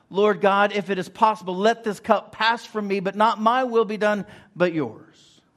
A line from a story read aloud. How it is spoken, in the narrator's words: Jesus had cried out